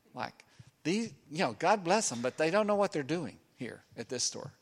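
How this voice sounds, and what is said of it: Put-on rabbi accent. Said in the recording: “I keep hearing this rabbi accent coming out of me, sort of.”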